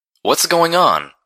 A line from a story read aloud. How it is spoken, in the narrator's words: I cried out to Calamity above the storm